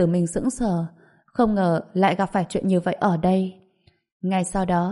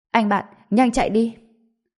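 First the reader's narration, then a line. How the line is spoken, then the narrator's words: Shout. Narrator (Vietnamese): người Hoa Quốc thứ ba cũng hét lên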